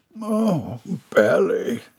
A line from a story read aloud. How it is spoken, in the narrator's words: he groaned